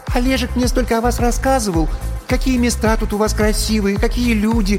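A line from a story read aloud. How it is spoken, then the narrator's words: High, shrill, birdlike voice. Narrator (Russian): Начала черненькая Яна высоким и резким, каким-то птичьим голосом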